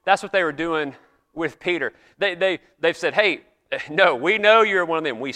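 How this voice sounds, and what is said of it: Southern US accent. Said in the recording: “you would hear my accent ... if you guess places like South Carolina, Georgia, North Carolina, that's usually what I get. Why do I get that? Because you hear this accent.”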